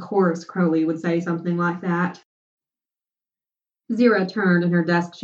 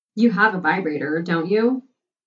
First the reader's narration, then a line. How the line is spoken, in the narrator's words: Crowley asked